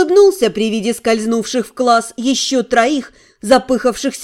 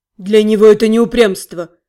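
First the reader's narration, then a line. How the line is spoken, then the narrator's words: Grumbling. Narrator (Russian): проворчал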